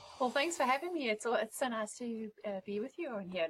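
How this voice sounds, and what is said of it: South African accent. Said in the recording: “it's so nice to have a different accent ... as you can tell, I'm from South Africa”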